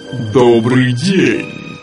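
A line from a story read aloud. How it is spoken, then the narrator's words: Deep bass giant voice. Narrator (Russian): пробасил великан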